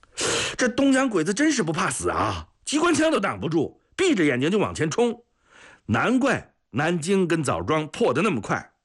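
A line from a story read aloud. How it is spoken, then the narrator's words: Clamoring loudly. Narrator (Chinese): 还有人嚷嚷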